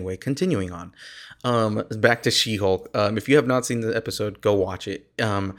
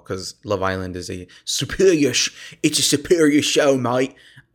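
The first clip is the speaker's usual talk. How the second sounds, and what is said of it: Weak put-on British accent. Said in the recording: “I can't do a British accent. ... my British accent is not as good as I initially thought it was.”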